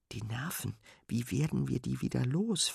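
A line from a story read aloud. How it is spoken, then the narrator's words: Whispered. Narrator (German): flüstert Fine Sven zu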